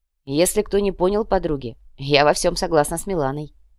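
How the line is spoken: Calm. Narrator (Russian): спокойно произнесла Радица

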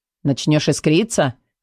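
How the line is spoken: Scoffing grunt. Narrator (Russian): Хмыкнул Эдер

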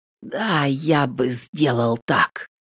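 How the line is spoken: Hoarse. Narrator (Russian): говорю сипло

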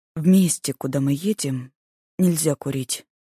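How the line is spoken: Calm young man. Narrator (Russian): Парень спокойно сказал

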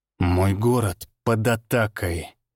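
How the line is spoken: Through gritted teeth. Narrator (Russian): процедил он сквозь стиснутые зубы

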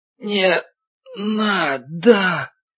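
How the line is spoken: Terrified gasping moan. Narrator (Russian): Человечек, задыхаясь от животного ужаса, простонал

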